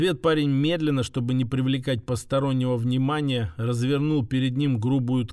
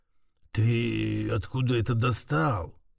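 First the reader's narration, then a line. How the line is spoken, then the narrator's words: Low slightly hoarse voice. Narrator (Russian): Его голос стал низким и даже чуть хриплым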